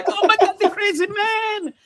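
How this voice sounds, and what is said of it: Exaggerated mock Asian accent. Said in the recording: “uber racist Asian accent”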